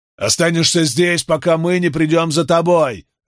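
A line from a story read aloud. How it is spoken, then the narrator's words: Barked. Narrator (Russian): рявкнул Карло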